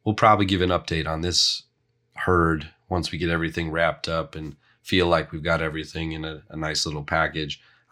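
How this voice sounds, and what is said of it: Strained, failing voice. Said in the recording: “As you can probably tell, my voice is not going to hold up much longer.”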